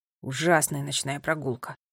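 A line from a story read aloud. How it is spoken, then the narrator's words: Grumbling. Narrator (Russian): проворчал Финн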